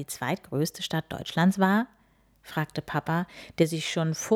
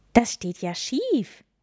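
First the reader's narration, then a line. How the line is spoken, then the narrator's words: Called out. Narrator (German): rief Lilly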